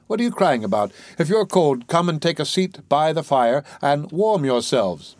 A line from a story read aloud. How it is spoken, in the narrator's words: cried he